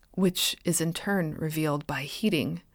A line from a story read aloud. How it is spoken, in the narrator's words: Dreyer whispered, as if against his will